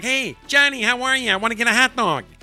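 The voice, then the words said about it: Put-on hard Buffalo Midwest accent. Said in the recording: “people in Buffalo have that hard Midwest accent ... I'm from Buffalo and I do impressions”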